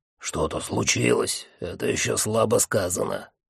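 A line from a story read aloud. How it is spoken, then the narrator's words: Grumbling. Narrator (Russian): буркнул Джуфин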